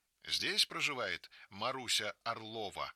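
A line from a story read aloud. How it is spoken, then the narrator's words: Stern question. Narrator (Russian): спрашивает строго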